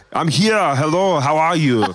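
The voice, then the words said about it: Imitates another person's voice, put-on accent. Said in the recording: “I was waiting for the accent ... impersonations that you try to land? I think that one's the closest one to the landing spot”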